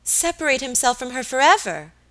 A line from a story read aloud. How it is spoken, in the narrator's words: exclaimed Alicia